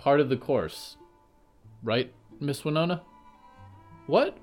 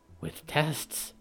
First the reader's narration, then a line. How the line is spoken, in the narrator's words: Harrow whispered